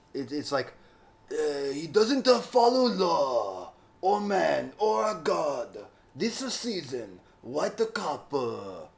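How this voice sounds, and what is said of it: Mock Japanese man's voice. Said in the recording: “great impression of a Japanese man”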